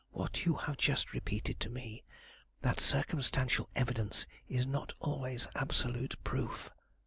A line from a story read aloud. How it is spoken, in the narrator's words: her voice sinking to a decided whisper now